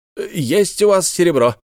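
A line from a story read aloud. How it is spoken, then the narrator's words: Shout. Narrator (Russian): крикнул тот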